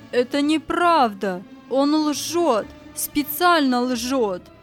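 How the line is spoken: Furious shout. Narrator (Russian): тип сверкая глазами, закричал

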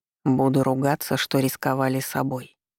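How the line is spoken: Quiet reply. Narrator (Russian): тихо ответил Маркус

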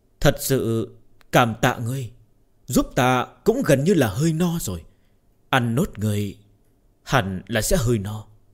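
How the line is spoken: Soft smiling voice. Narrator (Vietnamese): Công Tôn Uyển Nhi cười tủm tỉm, nhẹ giọng nói

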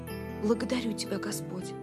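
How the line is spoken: Whisper. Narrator (Russian): прошептал Билл

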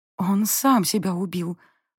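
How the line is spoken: Hoarse rasp. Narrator (Russian): просипела я

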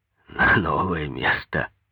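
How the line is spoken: Sad wry chuckle. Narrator (Russian): Рыжебородый грустно усмехнулся

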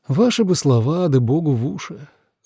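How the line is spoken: Sigh. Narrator (Russian): вздохнула Дана

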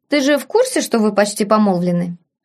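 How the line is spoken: Snort. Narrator (Russian): Афродита фыркнула

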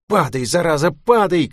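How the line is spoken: Shouting. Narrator (Russian): кричала она

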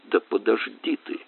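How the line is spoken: Through gritted teeth. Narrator (Russian): сквозь зубы произнесла она

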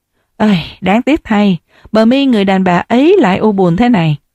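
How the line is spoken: Sighing. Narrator (Vietnamese): Hồ Duyệt thanh vánh thở dài

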